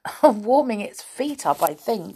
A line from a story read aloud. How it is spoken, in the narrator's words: said Franny with a giggle